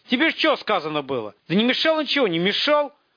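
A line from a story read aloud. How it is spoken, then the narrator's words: Shouted reply. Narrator (Russian): крикнул в ответ Жерть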